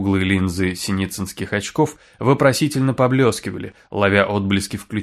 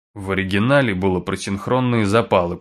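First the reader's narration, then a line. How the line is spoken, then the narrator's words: Grumble. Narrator (Russian): проворчал Син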